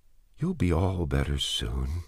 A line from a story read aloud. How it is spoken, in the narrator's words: he whispered